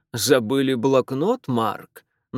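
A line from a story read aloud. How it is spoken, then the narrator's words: Mocking question. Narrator (Russian): насмешливо спросил Фэрчайлд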